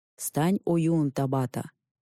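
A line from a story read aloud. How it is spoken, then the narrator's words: Solemn. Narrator (Russian): торжественно произнес он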